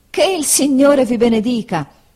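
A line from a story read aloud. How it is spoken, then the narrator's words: Surprised exclamation after coughing. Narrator (Italian): esclamò Homer dopo esser caduto per la sorpresa in un accesso di tosse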